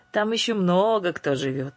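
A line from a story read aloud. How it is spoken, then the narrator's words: Malicious cackle. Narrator (Russian): злобно хохотнув, Гарпия добавила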